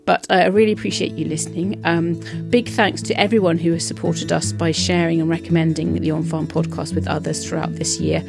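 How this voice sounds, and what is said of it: Sick, congested-sounding voice. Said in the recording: “As you might hear from my voice, I'm suffering from COVID at the moment”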